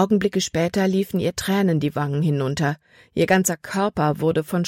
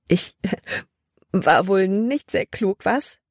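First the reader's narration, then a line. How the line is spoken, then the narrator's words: Loud amused laughter. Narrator (German): Als wäre es das Lustigste, was sie je getan hatte, lachte sie laut heraus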